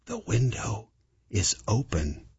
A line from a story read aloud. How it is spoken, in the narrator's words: whispered